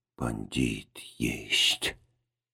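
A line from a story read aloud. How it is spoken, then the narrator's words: Old man hissing. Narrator (Russian): старик прошипел по-русски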